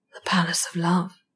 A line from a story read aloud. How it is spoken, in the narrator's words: he said softly